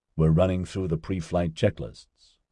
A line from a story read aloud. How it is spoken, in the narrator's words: Oscar told Adam quietly